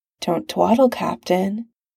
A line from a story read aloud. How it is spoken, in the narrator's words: murmurs, a weirdly gentle threat